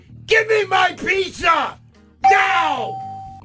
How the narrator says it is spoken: shouted

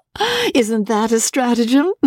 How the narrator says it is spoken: George burst out laughing

